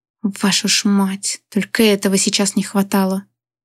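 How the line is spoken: Hissing. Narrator (Russian): прошипел

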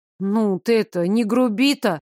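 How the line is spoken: Gruff mutter. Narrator (Russian): буркнула я

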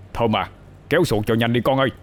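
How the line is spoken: Loud shout. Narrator (Vietnamese): Thầy ba hét lớn

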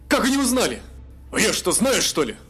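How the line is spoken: Exclaimed. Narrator (Russian): воскликнул Бовар

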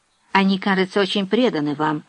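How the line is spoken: Plain. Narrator (Russian): сказала Виктория

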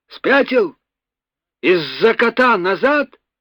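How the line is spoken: Shouting man. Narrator (Russian): Русов крикнул

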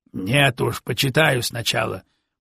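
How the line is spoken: Grumbling officer. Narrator (Russian): проворчал сотник

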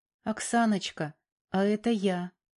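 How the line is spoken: Timid. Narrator (Russian): робко произнес он, наткнувшись на недовольное выражение лица бывшей жены

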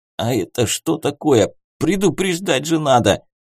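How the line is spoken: Hoarse mutter after coughing. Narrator (Russian): закашлялся и хрипло пробурчал

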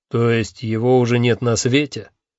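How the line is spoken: Knowing snort. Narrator (Russian): понимающе хмыкнул Малдо

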